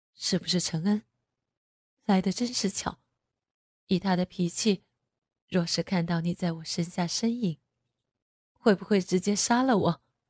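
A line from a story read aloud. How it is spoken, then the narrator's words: Low voice. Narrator (Chinese): 男人低声说道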